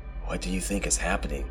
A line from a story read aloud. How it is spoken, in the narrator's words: I whispered, more to myself than my friend